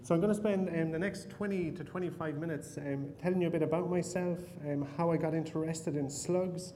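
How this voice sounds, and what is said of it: Irish accent. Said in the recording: “picked up from my accent, I'm not from the United States. I was actually born in Ireland.”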